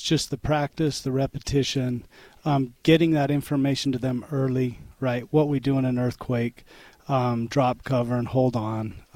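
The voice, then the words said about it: Rough, hoarse voice from a cold. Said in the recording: “Sorry, I've had a cold. My voice is a little bit rough.”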